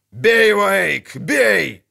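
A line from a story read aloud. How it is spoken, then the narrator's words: Barked. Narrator (Russian): рявкнул Ярпин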